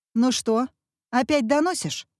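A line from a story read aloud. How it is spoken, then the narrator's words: Stern question. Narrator (Russian): спросила она строго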